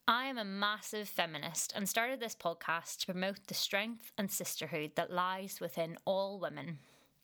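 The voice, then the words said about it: Northern Irish accent. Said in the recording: “as you can tell from my accent, I'm originally from Northern Ireland”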